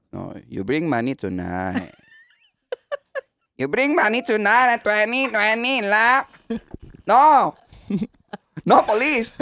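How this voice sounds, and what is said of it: Imitated Thai accent in English. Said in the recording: “Thai accent ... Palpak pa rin eh. Palpak pa rin.”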